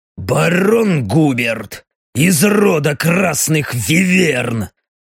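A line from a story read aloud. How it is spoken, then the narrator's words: Through gritted teeth. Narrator (Russian): Сжав зубы, процедил капитан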